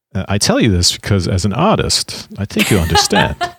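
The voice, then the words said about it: Imitates another person's voice. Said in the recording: “That's my Christopher Walken impression.”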